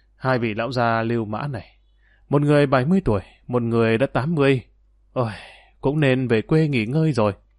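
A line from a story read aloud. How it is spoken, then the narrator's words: Sighing soft mutter. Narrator (Vietnamese): Dương Lăng thở dài một hơi, khẽ lẩm bẩm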